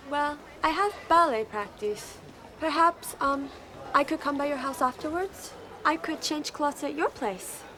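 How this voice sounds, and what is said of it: Unplaceable put-on foreign accent. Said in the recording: “I'm still not quite sure what that accent was, but it was fantastic ... you're not alone in not knowing what that accent was ... I don't think they wanted anyone to know where that was from. It was from nowhere”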